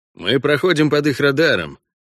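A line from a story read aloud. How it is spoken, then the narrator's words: Grumbled. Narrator (Russian): проворчал Меланхтон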